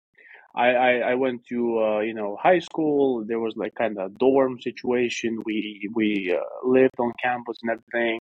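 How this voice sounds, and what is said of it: Slight Kazakh accent in English. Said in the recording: “I've got a little bit of an accent. I'm clearly not from America, you know, and I'm from Kazakhstan”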